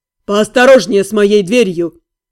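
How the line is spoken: Grumbling. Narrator (Russian): проворчал Джилин

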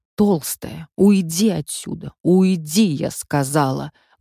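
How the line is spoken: Rude hiss. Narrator (Russian): грубо зашипела я

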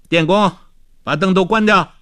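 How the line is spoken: Calling out. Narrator (Chinese): 他又叫道

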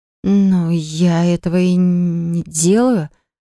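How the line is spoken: Stammering. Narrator (Russian): сказала она, совсем уж явно заикаясь

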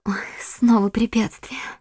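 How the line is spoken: Pained whisper. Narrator (Russian): с болью прошептала госпожа Бонасье

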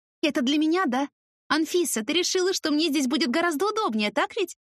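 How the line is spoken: Happy squeal. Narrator (Russian): Взвизгнула счастливо

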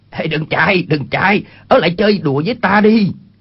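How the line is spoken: Shouted. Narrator (Vietnamese): Chu Bá Thông quát lên

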